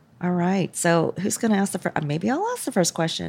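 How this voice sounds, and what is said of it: Hoarse voice, sounds near tears. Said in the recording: “you sound like you're just on the verge of crying because of your voice ... This is my sexy voice ... Trying to get over a cold”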